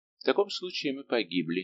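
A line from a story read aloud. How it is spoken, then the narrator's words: Calm remark. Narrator (Russian): спокойно заметил епископ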